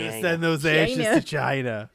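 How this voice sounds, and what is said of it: Jewish mother crossed with Donald Trump. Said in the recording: “What is that voice? ... it's like a mix between a Jewish mother and Donald Trump.”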